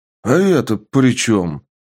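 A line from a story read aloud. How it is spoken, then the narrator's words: Exclaiming. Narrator (Russian): Воскликнул аргонский рыцарь-мастер ауры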